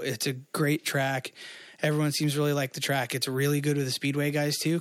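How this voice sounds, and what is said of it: Slightly hoarse voice. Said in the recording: “My voice sounds a little hoarse.”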